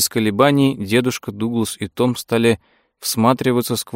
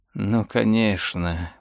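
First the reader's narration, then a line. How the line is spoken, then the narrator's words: Mutter. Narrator (Russian): бормотал он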